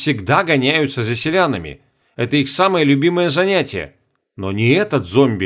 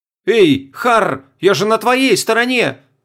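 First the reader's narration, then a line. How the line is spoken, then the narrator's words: Shouted. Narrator (Russian): крикнул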